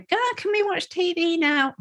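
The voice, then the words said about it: Put-on child's voice. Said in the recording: “doing that voice”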